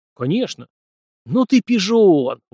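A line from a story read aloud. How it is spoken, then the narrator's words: Admiring exclamation. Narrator (Russian): восхищенно воскликнул Ким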